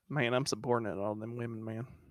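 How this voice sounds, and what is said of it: Put-on Georgia accent. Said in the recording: “What is a Georgia accent sound like? ... Oh, like dumber me.”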